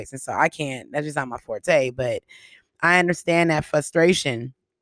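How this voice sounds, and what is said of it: Scratchy, raspy voice. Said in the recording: “I got a very scratchy, raspy voice”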